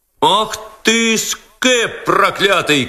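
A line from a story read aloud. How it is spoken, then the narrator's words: Crowd shouting. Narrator (Russian): кричала толпа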